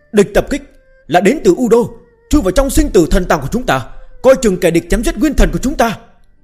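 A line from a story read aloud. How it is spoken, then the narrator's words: Angry alarmed shout. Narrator (Vietnamese): sắc mặt lập tức tái nhợt, giận dữ hét lên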